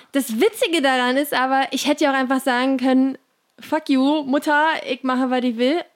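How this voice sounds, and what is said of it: Slips into Berlin dialect. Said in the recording (German): “Oh, jetzt habe ich gerade Berlinert.”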